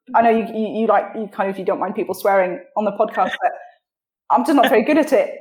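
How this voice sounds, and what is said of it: Posh, neutral British English accent. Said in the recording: “I sound British, but I probably sound a little bit fancy and posh because I don't have an accent from anywhere”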